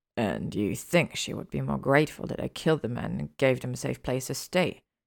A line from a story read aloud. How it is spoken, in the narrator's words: Gellert grumbled